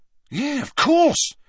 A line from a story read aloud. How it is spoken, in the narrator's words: said Dean excitedly